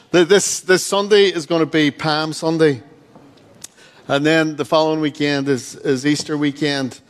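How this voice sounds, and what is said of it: Regional accent, 'towel' sounds like 'tile'. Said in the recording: “A towel... A tile?... confused by my accent... Take in the towel, not a tile.”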